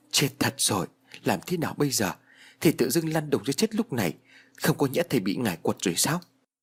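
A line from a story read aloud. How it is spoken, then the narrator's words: Muttering. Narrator (Vietnamese): Bà lẩm bẩm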